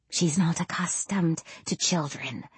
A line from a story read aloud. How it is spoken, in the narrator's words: Miss Larson whispers to me